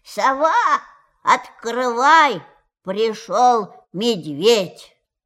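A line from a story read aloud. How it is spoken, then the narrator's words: Very loud shout. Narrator (Russian): крикнул очень громким голосом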